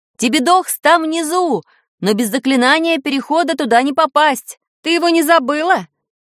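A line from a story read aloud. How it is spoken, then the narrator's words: Shouted. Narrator (Russian): крикнул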